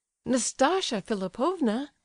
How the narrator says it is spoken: cried the prince

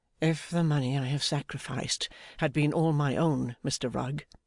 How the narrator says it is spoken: sighed Mr

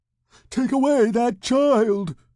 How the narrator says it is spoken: she cried

